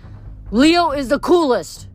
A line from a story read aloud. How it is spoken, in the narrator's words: he shouted